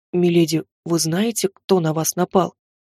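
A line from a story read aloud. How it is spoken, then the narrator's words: Bodyguard's whispered question. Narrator (Russian): Шепотом поинтересовался телохранитель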